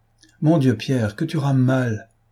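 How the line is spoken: Impatient exclamation. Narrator (French): s'écria Dosia, impatientée

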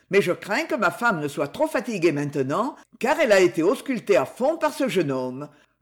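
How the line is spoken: Dry curt tone. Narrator (French): dit Sir John sèchement

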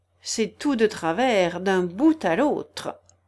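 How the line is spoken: Decisive. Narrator (French): dit la chenille d'un ton décidé

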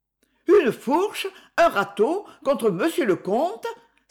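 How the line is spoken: Frightened mother exclaiming. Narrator (French): s'écria la mère effrayée

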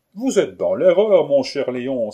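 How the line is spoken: Exclaimed. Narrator (French): s'écria Joseph Lacrisse

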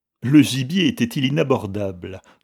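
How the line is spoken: Laughing question. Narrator (French): demanda le capitaine en riant

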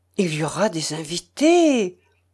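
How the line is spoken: Near-desperate murmur. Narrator (French): murmurai-je presque avec désespoir

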